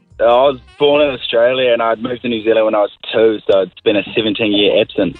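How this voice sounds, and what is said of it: Australian or New Zealand accent. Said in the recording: “Oh, I love the accent. ... I'm an Aussie, but I'm a full-heart Kiwi as well. ... You sound a bit Kiwi”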